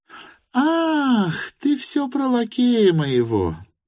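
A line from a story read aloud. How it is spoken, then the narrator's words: Sudden laughter. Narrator (Russian): засмеялась вдруг Марья Тимофеевна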